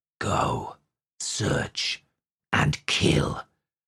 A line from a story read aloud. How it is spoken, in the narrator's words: hissed, and what they said was